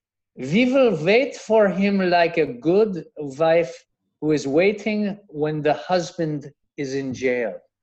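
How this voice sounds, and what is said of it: Slight put-on German accent. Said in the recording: “I will try to do this in a slight German accent”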